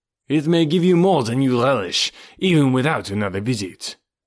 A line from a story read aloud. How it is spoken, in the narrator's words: said D'Arnaud